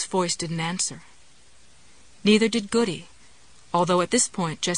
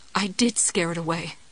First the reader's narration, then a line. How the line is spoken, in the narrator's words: she said